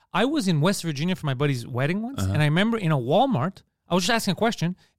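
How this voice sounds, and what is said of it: Montreal Greek neighborhood accent. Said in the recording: “It's not a Montreal accent... It's a Park X Greek accent... You sound different... it just sounds weird to everyone”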